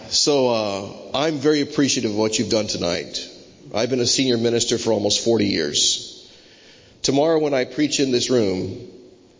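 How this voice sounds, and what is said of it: American Florida accent. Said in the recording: “strange accent ... funny accent from Orlando, Florida”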